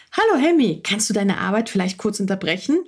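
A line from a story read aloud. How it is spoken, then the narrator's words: Plain question. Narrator (German): fragte sie ihn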